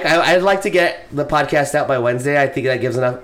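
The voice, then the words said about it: Hoarse, tired voice. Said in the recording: “my voice is kind of still a little gone ... I'm so exhausted. I'm still exhausted.”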